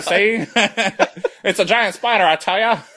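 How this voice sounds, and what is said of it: 1940s film noir character voice. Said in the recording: “they all talk like a character from the 1940s.”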